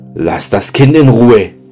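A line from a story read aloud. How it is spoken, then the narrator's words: Angry call. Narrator (German): er rief zornig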